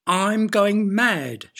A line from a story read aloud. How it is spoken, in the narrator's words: yelled